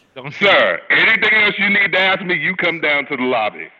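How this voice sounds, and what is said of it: Deep, loud male voice. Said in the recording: “I have a deep, loud voice.”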